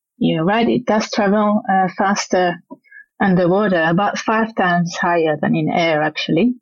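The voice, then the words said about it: French Swiss accent. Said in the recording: “your accent, you're from originally from Switzerland ... I'm from the French side of Switzerland, so it's got a Frenchy accent”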